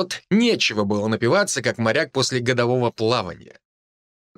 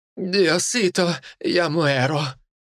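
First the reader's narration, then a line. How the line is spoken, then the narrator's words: Moaning. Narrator (Russian): простонала Амерта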